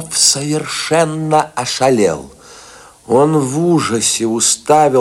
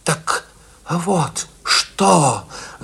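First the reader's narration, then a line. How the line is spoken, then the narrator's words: Breathless muttering. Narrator (Russian): задыхаясь, забормотал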